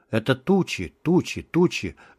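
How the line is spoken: Barely audible mutter. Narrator (Russian): забормотал он едва слышно

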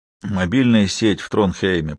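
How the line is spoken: Grumbling. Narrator (Russian): проворчал Туркельсен

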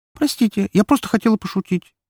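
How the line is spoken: Girl squeaking. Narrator (Russian): пискнула девушка

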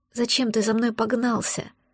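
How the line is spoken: Hopeless muttering. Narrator (Russian): пробормотала я безнадежно

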